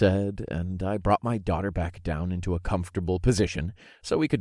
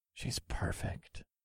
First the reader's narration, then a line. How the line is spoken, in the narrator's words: I murmured to Alyssa